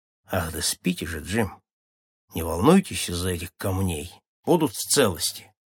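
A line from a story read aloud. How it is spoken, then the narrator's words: Calm, lucid. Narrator (Russian): совсем придя в сознание, Мат спокойно сказал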